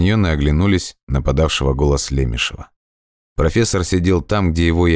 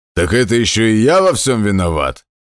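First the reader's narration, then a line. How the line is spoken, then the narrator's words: Roared. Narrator (Russian): взревел Хаммер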